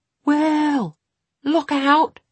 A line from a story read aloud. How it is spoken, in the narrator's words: the brown-haired man shouted